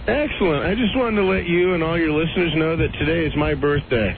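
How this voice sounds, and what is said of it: Spot-on impression of Mean Gene Okerlund. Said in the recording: “It sounds like him, doesn't it? ... That guy does an absolutely perfect impression of that guy, Lean Gene.”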